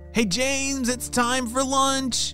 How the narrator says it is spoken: shouted his parents

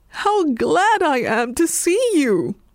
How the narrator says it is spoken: he cried

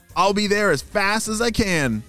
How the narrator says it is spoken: shouted Ava

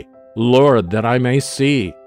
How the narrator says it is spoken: Repeat, shout, cry out ever more strongly

